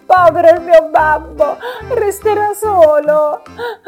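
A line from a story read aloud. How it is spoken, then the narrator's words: Sobbing. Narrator (Italian): diceva tra i singhiozzi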